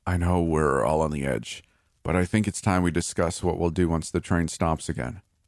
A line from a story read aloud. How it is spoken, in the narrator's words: Frank said in his usual annoyed tone